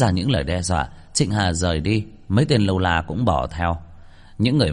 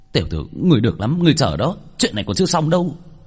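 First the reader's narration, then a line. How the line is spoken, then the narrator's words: Angry, through gritted teeth. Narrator (Vietnamese): Trịnh Hà tức giận, nghiến răng nghiến lợi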